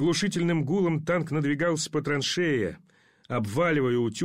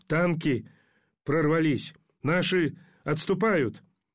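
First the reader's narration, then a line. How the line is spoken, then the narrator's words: Hoarse wheeze. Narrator (Russian): прохрипел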